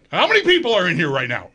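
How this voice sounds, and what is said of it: Yelling. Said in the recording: “I'm yelling.”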